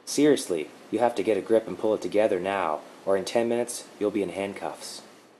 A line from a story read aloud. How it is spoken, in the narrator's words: In a calm and gentle tone said